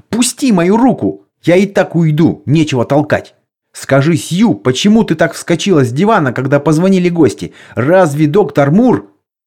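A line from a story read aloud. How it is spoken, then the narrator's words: Shout. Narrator (Russian): я еще крикнул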